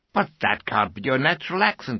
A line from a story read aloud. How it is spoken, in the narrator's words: exclaimed Sam